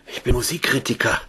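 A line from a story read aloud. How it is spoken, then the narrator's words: Patient gasping. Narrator (German): keuchte der Patient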